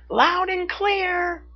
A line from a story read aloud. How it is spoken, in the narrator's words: she shouted back